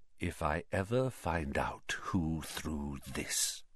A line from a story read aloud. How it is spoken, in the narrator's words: Snape whispered